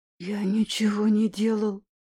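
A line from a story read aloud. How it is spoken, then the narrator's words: Half whisper, half hiss. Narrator (Russian): полупрошептал, полупрошипел Гоша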